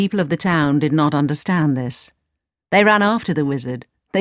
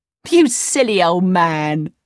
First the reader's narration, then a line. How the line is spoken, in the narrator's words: cried